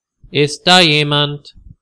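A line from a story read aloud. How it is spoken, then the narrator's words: Loud call. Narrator (German): ruft laut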